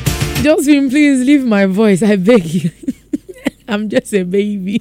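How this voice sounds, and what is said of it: Voice cracking and breaking, half-lost. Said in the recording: “it's like I've lost my voice, but I still have my voice type of vibe. So as I'm talking and my pitch goes up a little bit, then my voice goes off or it starts cracking or breaking.”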